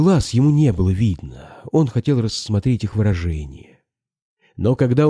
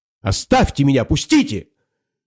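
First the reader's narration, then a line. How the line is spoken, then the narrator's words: Angry loud exclamation. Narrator (Russian): Воскликнула сердито и, как видно, с намерением громко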